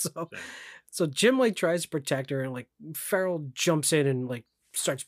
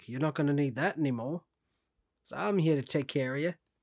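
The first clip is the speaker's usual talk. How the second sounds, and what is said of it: Put-on accent sounding Australian. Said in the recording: “good accent... It was sounded Australian, but I like the effort... That was definitely more Australian.”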